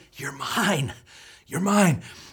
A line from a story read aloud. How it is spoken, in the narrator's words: the Spirit's whisper as he says